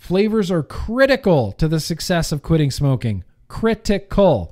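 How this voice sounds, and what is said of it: Usual voice. Nothing is said of it.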